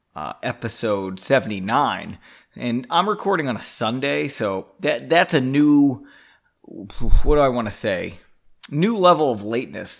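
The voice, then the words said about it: Slightly hoarse voice. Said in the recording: “My voice is a little hoarse, though... I've been screaming for the past week... I feel like I sound maybe a little funny.”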